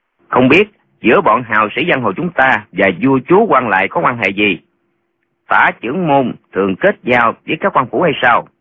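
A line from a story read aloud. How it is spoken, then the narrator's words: Smiling. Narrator (Vietnamese): Lệnh Hồ Xuân mỉm cười nói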